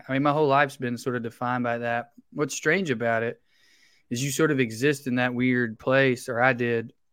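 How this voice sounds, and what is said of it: Southern US accent. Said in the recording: “you're from the South ... I have an accent.”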